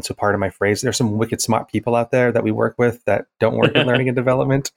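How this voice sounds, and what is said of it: New England accent. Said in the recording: “I'm originally from New England ... I'm not apologizing for being from New England. I love being from New England, but the accent does come back.”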